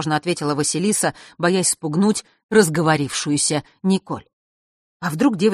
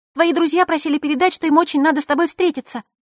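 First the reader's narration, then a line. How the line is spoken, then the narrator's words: Sudden rapid chatter. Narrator (Russian): неожиданно затараторила Николь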